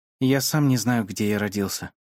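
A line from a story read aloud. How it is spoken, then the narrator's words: Sad. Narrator (Russian): сказал он грустно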